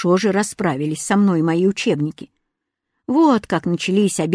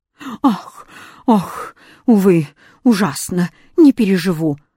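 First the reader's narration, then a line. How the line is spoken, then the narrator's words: Moaning. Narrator (Russian): стонал восклицательный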